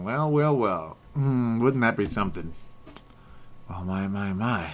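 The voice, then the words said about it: Impression of detective Joe Kenda. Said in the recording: “I was imitating an old detective there... Joe Kenda there. I was just imitating that guy.”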